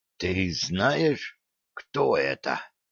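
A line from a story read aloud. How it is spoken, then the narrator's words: Guard's hissing whisper. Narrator (Russian): свистящим шепотом спросил из-за спины следовавший за ним по пятам стражник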